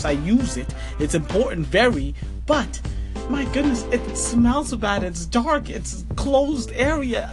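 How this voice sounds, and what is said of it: Noticeable accent. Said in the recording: “I can tell by your accent”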